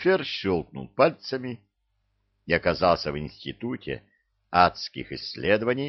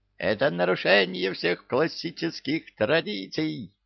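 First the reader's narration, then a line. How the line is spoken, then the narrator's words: Shrieking old devil. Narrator (Russian): визжал почтенный черт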